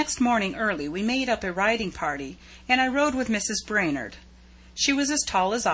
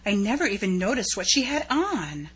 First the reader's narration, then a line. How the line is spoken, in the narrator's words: she whispered in an awed tone